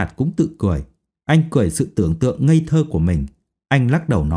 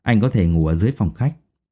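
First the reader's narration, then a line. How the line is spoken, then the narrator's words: Smiling speech. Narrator (Vietnamese): Dung Nhan mỉm cười nói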